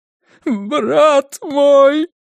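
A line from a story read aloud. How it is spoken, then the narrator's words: Sobbing in ear. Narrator (Russian): Рыданием вырвалось у него в ухо шефа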